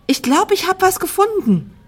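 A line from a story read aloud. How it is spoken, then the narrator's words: Calling out. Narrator (German): rief Tina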